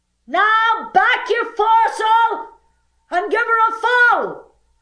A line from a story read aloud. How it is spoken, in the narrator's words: screamed the owner of the Wasp